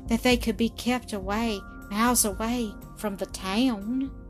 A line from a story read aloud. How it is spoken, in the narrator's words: murmured the girl, with a slight shudder